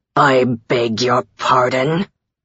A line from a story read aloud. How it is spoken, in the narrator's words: His voice was an iceberg, slow and deadly